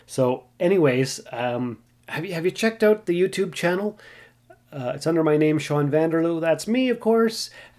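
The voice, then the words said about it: Sick, strained voice. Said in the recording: “if I wasn't feeling so sick ... it's even hard to talk. I'm sure you can hear it in my voice. This doesn't sound like my normal, regular, who I am kind of person”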